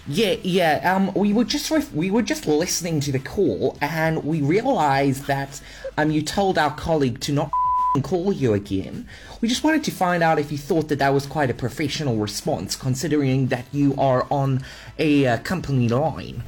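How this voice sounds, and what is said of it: Put-on New Zealand accent. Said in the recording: “That was actually a pretty good accent ... You passed as a New Zealander.”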